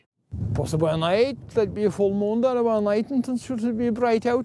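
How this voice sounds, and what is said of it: Irish accent. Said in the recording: “this Irish guy ... Thanks, Irish guy.”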